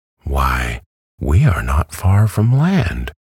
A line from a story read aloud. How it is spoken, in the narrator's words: exclaimed the hen